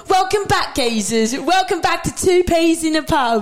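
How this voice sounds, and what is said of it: Put-on British Geordie accent. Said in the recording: “start talking in a British accent ... Geordie”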